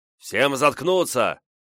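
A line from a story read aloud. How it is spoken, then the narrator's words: Bearded big man barking. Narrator (Russian): прикрикнул на нас бородатый здоровяк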